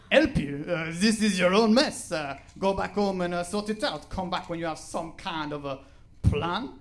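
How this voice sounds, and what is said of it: Outrageous put-on accent. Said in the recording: “my outrageous accent”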